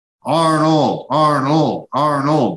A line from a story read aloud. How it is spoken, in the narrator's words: they shouted in time with the Sergio, Sergio, Sergio set